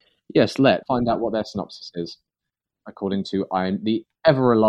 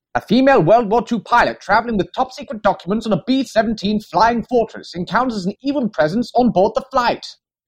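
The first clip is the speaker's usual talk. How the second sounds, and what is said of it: BBC radio announcer voice. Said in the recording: “shall I do my BBC radio announcer voice? ... that was very well done”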